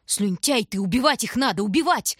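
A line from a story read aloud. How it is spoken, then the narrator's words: Yell. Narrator (Russian): заорал Бобка в лицо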